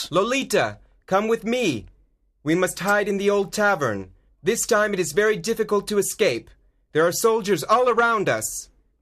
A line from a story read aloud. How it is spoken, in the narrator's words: He shouts